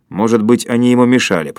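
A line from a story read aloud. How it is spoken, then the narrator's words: Grumbling. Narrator (Russian): проворчал Комов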